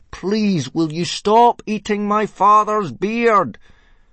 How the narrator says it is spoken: Hiccup yelled as loudly as he could

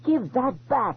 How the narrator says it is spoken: Thalia shrieked

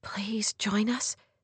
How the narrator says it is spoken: she whispered

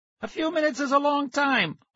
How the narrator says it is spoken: I cried

